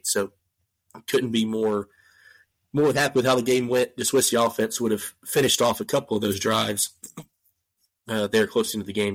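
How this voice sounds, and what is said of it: Raspy, congested voice. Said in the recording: “Sorry, I'm raspy. I'm a little stopped up ... why I sound like I've smoked Marlboro Reds today.”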